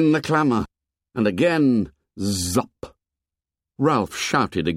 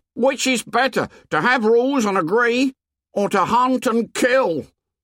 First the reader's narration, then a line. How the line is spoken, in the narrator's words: Piggy shouted again